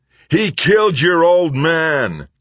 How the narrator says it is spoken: Killifer roared

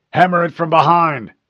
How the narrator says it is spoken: the chief yelled

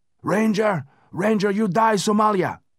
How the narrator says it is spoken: shouted

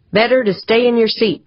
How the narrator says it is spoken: Pancho said in her most authoritative voice

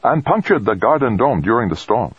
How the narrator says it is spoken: Fuchida said firmly

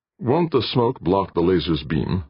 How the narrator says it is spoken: Jordan asked

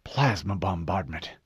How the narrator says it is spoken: Fred whispered

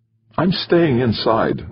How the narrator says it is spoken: Rosenberg said, his voice quavering slightly

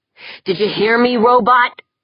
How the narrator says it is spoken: Yeager snapped

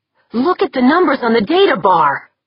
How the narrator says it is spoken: Corvus cried

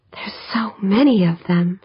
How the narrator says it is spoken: Holly breathed

